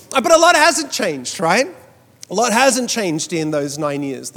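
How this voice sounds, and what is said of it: Mixed Australian-American accent. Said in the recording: “my accent has changed. ... I thought I sounded a lot more Australian 9 years ago than I do today. ... I sound Australian to Americans and American to Australians.”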